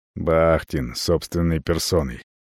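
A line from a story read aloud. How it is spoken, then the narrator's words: Mutter. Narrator (Russian): бормочу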